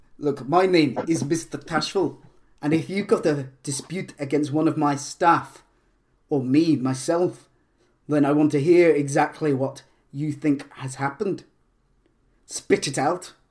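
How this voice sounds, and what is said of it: Inconsistent put-on character accent. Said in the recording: “my accent goes all over the place”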